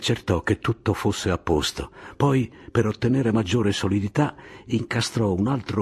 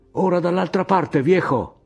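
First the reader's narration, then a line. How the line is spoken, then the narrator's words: Shouted. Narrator (Italian): gridò ad Anselmo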